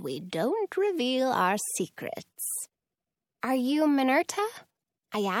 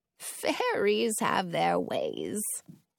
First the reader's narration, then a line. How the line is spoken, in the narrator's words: she says with a chuckle